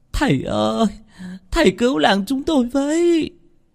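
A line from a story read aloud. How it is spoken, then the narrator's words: Tearful, whimpering. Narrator (Vietnamese): mếu máo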